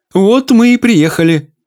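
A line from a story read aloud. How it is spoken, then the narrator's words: Cheerful exclamation. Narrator (Russian): бодро воскликнула тетушка Симпрония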